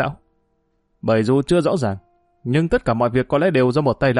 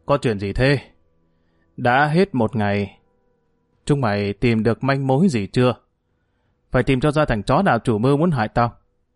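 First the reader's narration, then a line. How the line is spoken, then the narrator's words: Harsh, gritted voice. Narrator (Vietnamese): Hưởng gằn giọng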